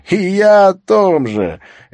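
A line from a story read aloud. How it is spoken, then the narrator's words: Laughing. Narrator (Russian): Эвра рассмеялся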